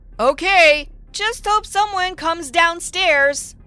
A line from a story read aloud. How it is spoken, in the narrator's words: I said loudly